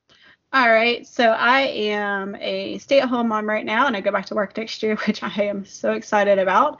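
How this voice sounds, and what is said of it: Sounds congested from a cold. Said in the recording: “Just fighting a little cold, so if I sound awful”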